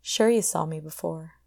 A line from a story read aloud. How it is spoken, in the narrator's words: he said